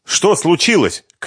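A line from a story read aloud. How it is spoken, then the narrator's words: Agitated shout. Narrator (Russian): крикнула она взволнованным голосом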